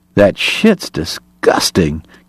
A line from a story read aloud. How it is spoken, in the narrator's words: Kate muttered